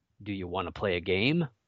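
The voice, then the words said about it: Put-on deep voice. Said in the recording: “in the deep voice ... That's not really my deep voice.”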